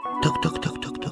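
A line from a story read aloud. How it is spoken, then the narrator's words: Hedgehog muttering. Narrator (Russian): забормотал ежик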